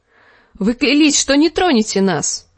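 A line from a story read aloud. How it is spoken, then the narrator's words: Exclamation. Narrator (Russian): воскликнул Гроздан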